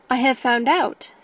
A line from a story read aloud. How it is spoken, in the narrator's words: said he